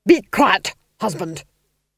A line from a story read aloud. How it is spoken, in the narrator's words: snapped the Duchess